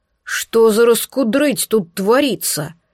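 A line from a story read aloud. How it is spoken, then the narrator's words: Booming bass shout. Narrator (Russian): вскричал он гулким басом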